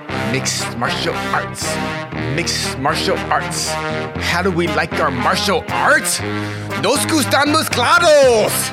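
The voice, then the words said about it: Put-on accent. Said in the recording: “that accent was incredible”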